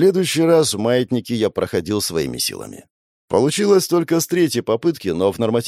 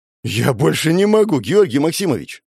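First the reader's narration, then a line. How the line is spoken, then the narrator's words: Pleading. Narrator (Russian): взмолился парень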